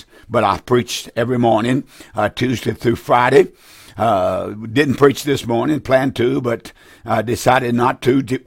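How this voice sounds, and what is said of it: Raspy, slightly hoarse voice. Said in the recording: “my throat is a little bit raspy ... I'm a little hoarse”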